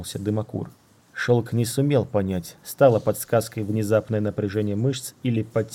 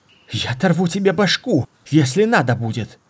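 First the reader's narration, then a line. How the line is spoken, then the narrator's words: Fearful shout. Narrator (Russian): крикнула Мара, но в голосе читался не столько гнев, сколько страх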